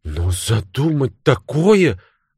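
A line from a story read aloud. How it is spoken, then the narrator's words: Exclamation. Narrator (Russian): воскликнула Мэри Олдин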